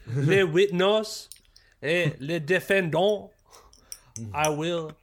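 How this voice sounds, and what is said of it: Mock French accent. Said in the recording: “stumbling through in like broken French ... just like saying American words in like a French accent”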